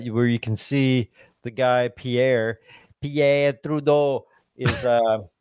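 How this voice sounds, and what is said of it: Terrible put-on French accent. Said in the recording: “that's my terrible French accent ... Sounded pretty horrible”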